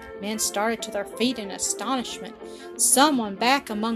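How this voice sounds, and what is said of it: Usual voice. Nothing is said of it.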